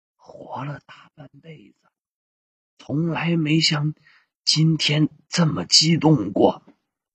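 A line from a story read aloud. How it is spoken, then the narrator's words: Quiet, nervous. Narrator (Chinese): 手足无措的王云波小声的对女儿说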